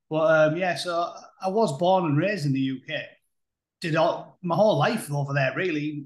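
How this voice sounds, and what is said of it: British accent. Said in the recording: “I'm not a full-blown Yankee Doodle. You can probably tell by the accent”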